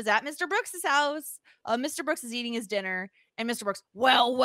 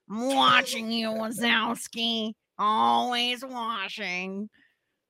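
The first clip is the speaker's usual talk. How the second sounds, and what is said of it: Imitates Roz from Monsters, Inc. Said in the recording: “I feel like my voice is getting a little bit like Roz from Monsters, Inc.”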